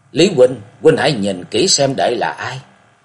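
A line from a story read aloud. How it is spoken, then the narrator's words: Lowered voice. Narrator (Vietnamese): Lạc Dương Dương hạ giọng nói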